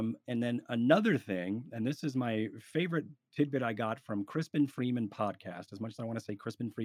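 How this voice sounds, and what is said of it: Usual voice. Nothing is said of it.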